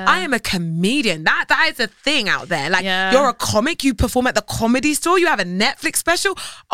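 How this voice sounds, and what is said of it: British accent. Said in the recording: “they hear my accent, they're like, oh, she's British.”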